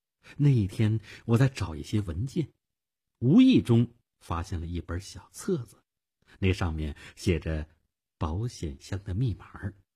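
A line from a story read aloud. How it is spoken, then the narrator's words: Soft. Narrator (Chinese): 他轻声地说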